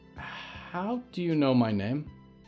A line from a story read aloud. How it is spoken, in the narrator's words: Valerie said quietly